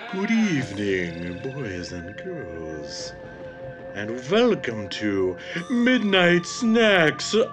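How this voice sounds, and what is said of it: Cheesy horror host voice. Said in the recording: “that cheesy voice that I did at the beginning”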